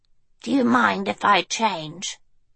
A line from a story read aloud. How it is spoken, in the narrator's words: he asked quietly